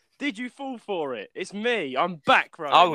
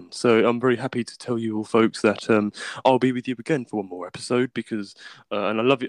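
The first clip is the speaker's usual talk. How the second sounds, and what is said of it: Deep voice imitating another person. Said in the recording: “Most of you love my deep voice ... how good was my Elijah impression ... That was rubbish”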